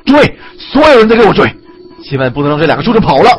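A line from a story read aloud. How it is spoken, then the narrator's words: Roaring, alarmed. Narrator (Chinese): 三彪立刻明白了，大叫不好，吼道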